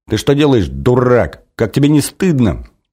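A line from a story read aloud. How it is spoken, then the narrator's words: Indignant girl shouting. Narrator (Russian): кричала девочка, вся красная от возмущения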